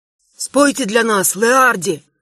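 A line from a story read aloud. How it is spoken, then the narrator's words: Hoarse request. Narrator (Russian): хрипло попросил один из офицеров людей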